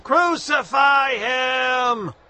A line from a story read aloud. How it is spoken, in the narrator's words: But the mob roared even louder